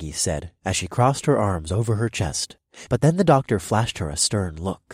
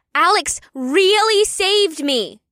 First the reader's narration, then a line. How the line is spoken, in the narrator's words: Una said in an even louder voice